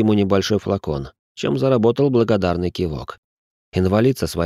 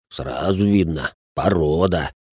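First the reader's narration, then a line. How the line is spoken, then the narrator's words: Approving growl. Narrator (Russian): одобрительно прорычал Салих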